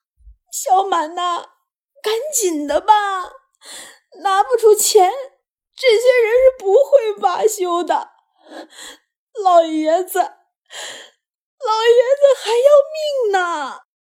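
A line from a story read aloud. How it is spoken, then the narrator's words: Near tears. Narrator (Chinese): 机灵几乎是带着哭腔说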